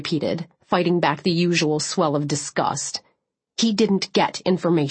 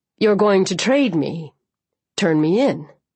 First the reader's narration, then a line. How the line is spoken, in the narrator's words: said in a tight voice